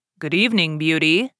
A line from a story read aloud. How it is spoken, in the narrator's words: she answered cheerfully and managed to conceal her terror